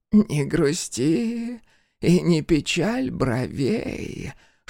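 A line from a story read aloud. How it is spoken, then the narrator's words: Old woman hissing like embers. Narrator (Russian): шипела старуха, будто уголья в печке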